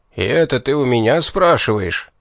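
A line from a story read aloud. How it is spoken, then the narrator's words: Sudden indignant outburst. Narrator (Russian): неожиданно возмущенно вскинулся Торвин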